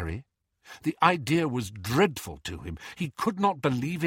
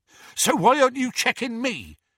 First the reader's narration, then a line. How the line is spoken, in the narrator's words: panted Hagrid, still struggling to fit through the door